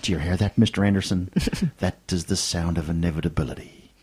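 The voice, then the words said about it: Impression of Agent Smith. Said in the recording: “I'm going to do my Mr. Agent Smith impersonations here.”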